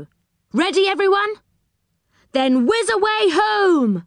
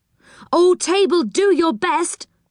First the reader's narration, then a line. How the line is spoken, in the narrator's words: cried Joe